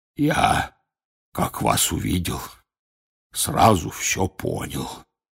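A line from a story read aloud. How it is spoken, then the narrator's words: Hoarse voice. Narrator (Russian): раздался почему-то охрипший голос Хагрида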